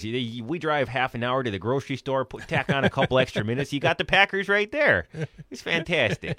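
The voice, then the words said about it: Exaggerated Upper Peninsula accent. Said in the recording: “the exaggerated Uper accent”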